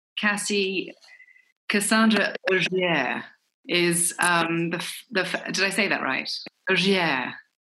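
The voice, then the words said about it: Put-on French accent, quite good. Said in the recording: “Quite a good French accent you put on there.”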